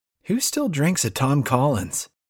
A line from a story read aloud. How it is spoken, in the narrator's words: I laugh